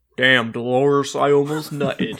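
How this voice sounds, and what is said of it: Imitated character voice. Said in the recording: “That's a very good impression.”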